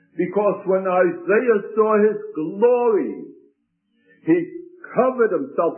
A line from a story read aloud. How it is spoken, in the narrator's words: he cried out